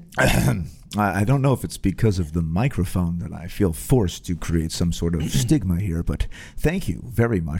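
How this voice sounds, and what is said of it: Put-on deep radio voice. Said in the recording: “What is this voice that you kind of put on? ... radio voice ... why do you have a radio voice? Why don't you just talk like a normal voice?”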